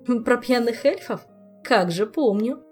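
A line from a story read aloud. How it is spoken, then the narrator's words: Giggling. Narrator (Russian): хихикнула королева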